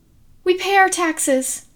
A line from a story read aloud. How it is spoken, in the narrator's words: the woman squeaked